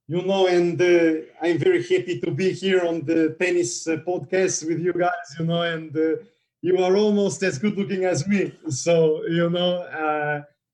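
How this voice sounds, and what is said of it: Novak impression. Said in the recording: “impersonation tennis players ... I definitely want Novak”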